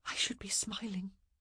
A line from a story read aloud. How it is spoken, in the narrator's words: she whispered